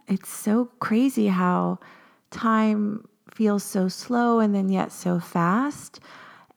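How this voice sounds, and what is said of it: Slightly cracky early-morning voice. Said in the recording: “my voice is a little cracky. It's early in the morning.”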